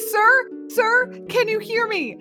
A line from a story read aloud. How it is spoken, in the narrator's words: tapping and shouting in his face